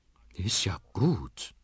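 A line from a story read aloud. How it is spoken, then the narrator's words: Grandmother murmuring. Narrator (German): murmelt Oma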